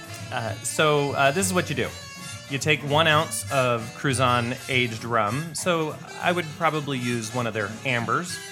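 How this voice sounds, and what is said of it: American Southern accent. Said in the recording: “I like that with your southern accent.”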